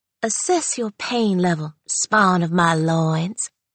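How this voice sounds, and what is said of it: Exaggerated southwestern Louisiana accent. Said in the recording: “her outrageous southwestern Louisiana accent”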